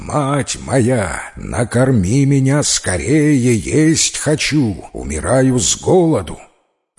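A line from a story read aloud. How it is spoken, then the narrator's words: Loud shout, the sun. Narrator (Russian): солнце и с порога прокричало громким голосом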